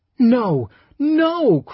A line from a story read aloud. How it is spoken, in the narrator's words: cried Rosamond frantically